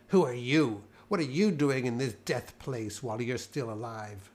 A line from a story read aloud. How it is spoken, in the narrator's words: I was so shaken that all I could do was sneer back at him